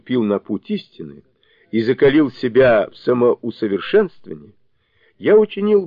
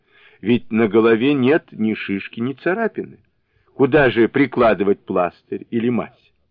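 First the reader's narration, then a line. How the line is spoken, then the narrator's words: Laughing. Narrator (Russian): Джу Бадзе рассмеялся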